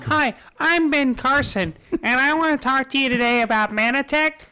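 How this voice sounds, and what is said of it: Imitates another person's voice. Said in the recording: “You do your little fucking voices ... your black voice”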